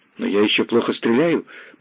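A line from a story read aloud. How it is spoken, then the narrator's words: Shocked mumbling. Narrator (Russian): потрясенно бормотал Семен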